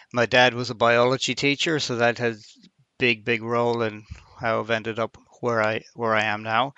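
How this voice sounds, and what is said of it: Irish accent. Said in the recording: “I'm from Ireland, and you probably picked that up already from my accent.”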